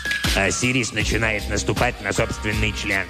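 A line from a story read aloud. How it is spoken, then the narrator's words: Grumbled. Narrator (Russian): проворчал Себек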